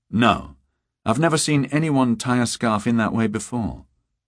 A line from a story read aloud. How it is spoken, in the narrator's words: Beata said